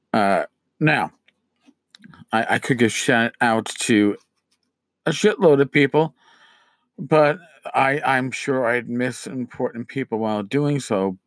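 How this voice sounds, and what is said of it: Strained voice, losing his voice. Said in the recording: “losing my voice. I've had allergies”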